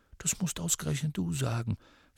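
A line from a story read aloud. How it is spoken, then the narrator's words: Whispered reply. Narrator (German): flüsterte zurück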